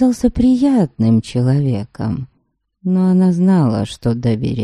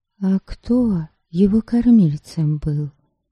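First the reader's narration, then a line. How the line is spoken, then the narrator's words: Whispered question. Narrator (Russian): шепотом спросила она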